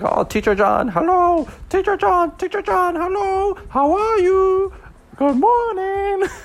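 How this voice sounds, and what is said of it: Mock Asian accent. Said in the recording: “trying to make fun of Asian accents, but that's just what they sound like”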